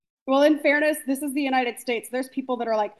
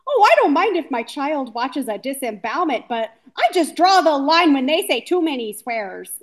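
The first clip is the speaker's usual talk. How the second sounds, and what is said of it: Put-on specific accent. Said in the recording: “That was a very specific accent for that.”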